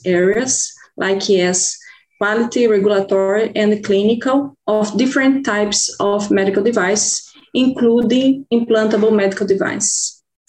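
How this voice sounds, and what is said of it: Foreign-accented English. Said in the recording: “we can hear that maybe with your accent. So it's a great one.”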